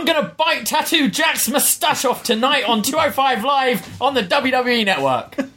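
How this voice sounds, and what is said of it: Half-shouted British voice, Oni Lorcan impression. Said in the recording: “if you're yelling, like, in that... What even is that voice? Is that Oni Lorcan's voice? That's not even your voice. That's some other British voice you just did ... my shouting without actually shouting ... Voice ... It had like a weird twang to it, your accent, though, different than you speak ... that's your Oni Lorcan”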